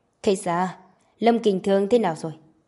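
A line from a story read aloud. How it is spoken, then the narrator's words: Cold. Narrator (Vietnamese): Khây Sa lạnh lùng nói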